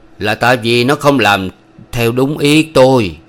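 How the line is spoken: Loud old man. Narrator (Vietnamese): Ông lão to tiếng

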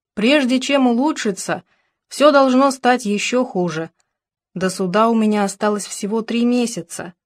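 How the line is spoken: Plain. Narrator (Russian): сказала Алекса

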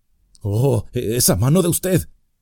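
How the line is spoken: Exclaimed. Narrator (Spanish): exclamó

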